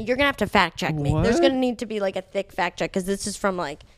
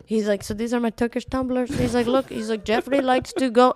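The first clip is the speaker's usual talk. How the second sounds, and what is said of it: Put-on Turkish accent. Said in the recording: “I'm not going to do a bad Turkish accent. ... No, do the accent.”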